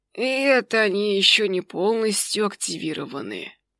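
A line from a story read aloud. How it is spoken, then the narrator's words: Tired. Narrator (Russian): устало добавил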